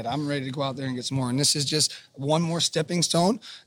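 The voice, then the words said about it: Hoarse, strained voice. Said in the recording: “Obviously, I roared too much yesterday. You can hear it in my voice. Can't yell today like we usually do in the booth”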